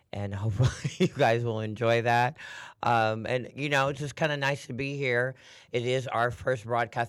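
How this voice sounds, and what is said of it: Raspy, hoarse voice. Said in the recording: “apologizing a little bit for my voice. It's a little on the raspy side, giving you my Demi Moore impersonation.”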